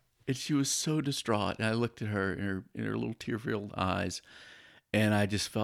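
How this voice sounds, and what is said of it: Usual voice. Nothing is said of it.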